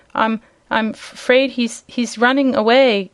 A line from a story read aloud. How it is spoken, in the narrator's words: gasped Dorothy